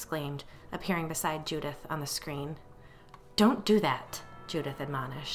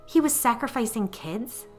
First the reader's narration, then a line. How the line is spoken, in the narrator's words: Claire exclaimed